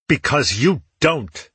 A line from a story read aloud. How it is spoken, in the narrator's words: he shot back angrily